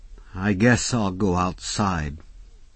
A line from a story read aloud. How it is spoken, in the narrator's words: said miserably